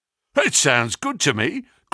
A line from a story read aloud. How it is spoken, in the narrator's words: cried Sam Merton with a grin